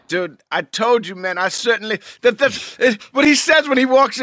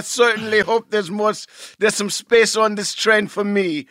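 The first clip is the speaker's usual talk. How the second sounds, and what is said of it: Put-on Jamaican accent. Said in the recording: “With the Jamaican accent”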